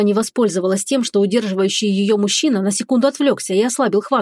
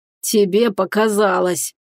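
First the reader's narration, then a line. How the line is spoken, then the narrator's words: Tormentor's growl. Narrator (Russian): зарычал ее мучитель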